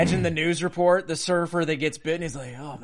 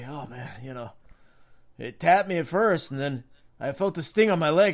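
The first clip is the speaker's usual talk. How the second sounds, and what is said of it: Put-on Mexican accent. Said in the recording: “With a Mexican accent, of course.”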